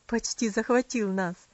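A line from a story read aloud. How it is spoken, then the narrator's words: Laughing. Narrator (Russian): засмеялась тетушка Хлоя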